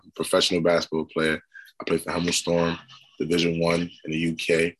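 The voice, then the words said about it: American Brooklyn accent. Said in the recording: “I'm obviously born in America, as you can tell from the accent. Brooklyn, New York.”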